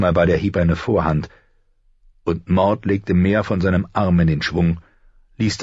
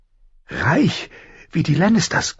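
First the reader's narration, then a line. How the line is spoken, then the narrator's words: Panting. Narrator (German): keuchte er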